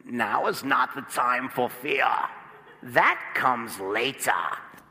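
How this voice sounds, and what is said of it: Imitated menacing movie villain voice. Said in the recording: “my Bane impersonation?... He sounds not really like this.”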